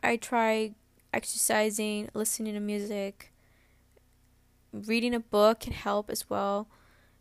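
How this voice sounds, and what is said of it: Croaky, tired voice. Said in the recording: “I sound like really croaky... that's how I sound like when I'm really, really tired”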